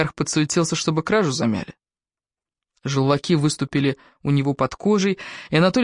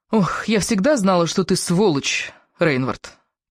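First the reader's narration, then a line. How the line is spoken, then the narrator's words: Hissed through gritted teeth. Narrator (Russian): процедила сквозь зубы Раиса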